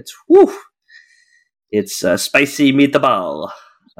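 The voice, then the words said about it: Awful put-on Italian accent. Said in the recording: “Forgive my awful Italian accent”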